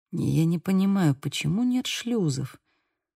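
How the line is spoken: Muttered. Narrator (Russian): пробормотал Бэйл

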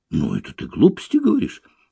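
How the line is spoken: Exclaimed. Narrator (Russian): воскликнула я

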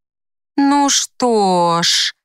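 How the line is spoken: Drawling. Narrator (Russian): протянула Лайла

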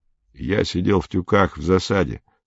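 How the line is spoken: Plain. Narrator (Russian): сказал Мбога

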